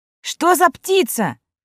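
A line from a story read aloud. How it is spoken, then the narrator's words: Shouting. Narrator (Russian): прокричал Сева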